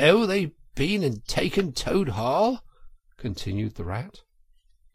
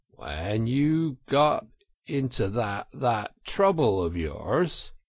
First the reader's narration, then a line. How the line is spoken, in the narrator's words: said the rat slowly and impressively